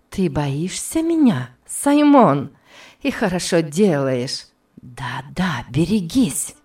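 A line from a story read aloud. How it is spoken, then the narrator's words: Hissing whisper, close. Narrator (Russian): произнесла свистящим шепотом у самого его уха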